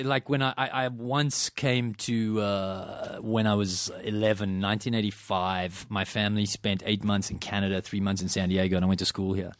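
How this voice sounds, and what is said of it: Non-American accent. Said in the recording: “You have a far superior accent to mine ... It sounds so much better”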